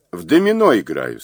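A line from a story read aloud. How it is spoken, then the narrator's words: Plain. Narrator (Russian): сказал Мазур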